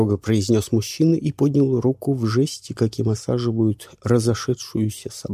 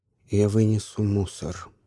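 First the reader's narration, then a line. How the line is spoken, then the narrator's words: Calm man. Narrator (Russian): спокойно сказал мужчина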